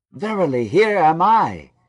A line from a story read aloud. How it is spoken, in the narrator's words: cried Joseph again, enraptured with the idea